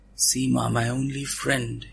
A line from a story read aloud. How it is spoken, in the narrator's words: he whispered